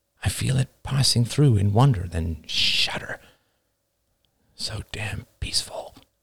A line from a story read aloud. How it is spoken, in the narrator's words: I whisper